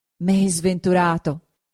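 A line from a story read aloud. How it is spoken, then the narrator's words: Exclaimed. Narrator (Italian): esclamò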